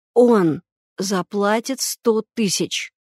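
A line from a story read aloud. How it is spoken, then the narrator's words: Hoarse. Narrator (Russian): Егор, отдышавшись, сказал хрипло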